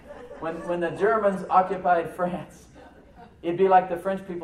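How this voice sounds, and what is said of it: Usual voice. Nothing is said of it.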